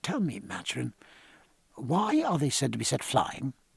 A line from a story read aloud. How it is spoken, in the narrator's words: Martin said in a low voice